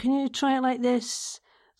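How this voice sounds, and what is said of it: Impression of a director's voice. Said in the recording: “This is my impression of Robert, who I adore. It sounds more like, what's that name of that guy who does the leisure centres? ... Duncan Bannatyne. Doesn't sound like him either”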